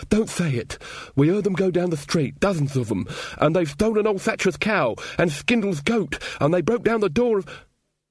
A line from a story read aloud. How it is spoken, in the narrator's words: said Weaver, his eyes full of pleading